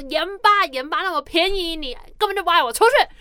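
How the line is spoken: Loud, angry. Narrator (Chinese): 那个 daddy 就大声气说

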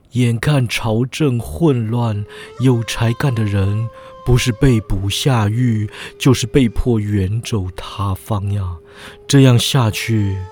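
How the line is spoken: Heavy sigh. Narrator (Chinese): 他长叹一声，又说

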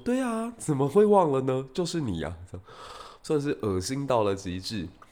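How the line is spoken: Gentle smile. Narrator (Chinese): 司马懿就微微笑，说

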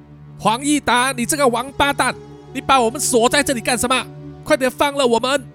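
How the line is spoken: Angry shouting. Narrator (Chinese): 二狗、三狗呢也跟着大喊，一面骂黄义达

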